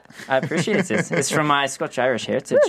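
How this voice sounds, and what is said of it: Put-on fake accent. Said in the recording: “Such a sexy accent ... This is the fake accent.”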